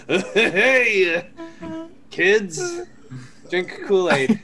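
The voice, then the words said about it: Put-on accent, dropped halfway through. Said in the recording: “I lost the accent halfway through that.”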